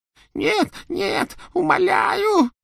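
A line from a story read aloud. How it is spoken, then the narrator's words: Choking on sobs. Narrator (Russian): захлебывался рыданиями Ксенофилиус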